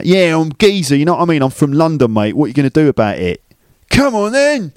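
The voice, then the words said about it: Put-on London accent. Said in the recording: “You could say London with a London accent. I'm from London, mate. London. London is kind of a London accent. I don't say it like that.”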